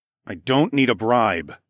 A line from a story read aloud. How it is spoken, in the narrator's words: grumbled